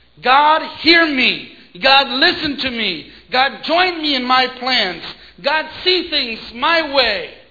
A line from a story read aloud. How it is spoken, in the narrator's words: Pride screams